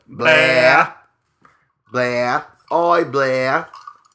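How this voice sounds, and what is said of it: Put-on Australian accent. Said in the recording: “I'm sure that is an accurate Australian accent.”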